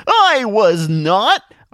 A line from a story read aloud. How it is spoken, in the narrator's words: Art yelled after them